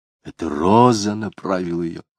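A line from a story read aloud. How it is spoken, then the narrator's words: Muttering. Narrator (Russian): бормотал Дронов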